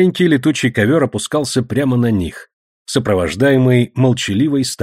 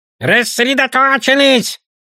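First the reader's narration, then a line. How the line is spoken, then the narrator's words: Barked, goblin. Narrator (Russian): рявкнул гоблин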